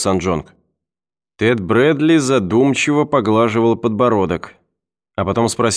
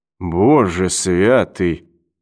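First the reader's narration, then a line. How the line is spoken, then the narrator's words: Muttered. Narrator (Russian): пробормотал Брэдли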